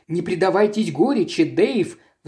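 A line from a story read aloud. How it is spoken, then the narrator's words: Pleading. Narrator (Russian): взмолилась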